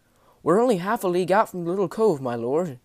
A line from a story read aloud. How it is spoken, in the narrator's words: spoke, twirling his fingers about nervously